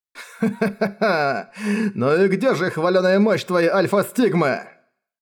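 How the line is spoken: Laughing. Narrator (Russian): рассмеялся командир

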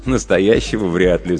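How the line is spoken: Laughing. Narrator (Russian): засмеялся я

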